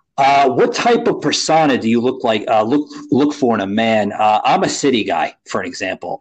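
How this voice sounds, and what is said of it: New Jersey / New York accent. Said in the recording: “I grew up in uh, New Jersey, New York City area, as you can probably hear in my voice.”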